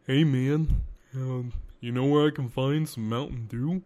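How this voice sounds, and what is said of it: Made-up character voice. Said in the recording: “he's just so derby. So we gave him this voice, all right? I gave him this voice.”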